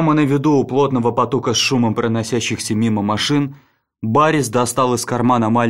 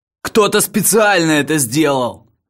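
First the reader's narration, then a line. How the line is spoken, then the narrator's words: Furious shout. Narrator (Russian): В ярости выкрикнул Лакман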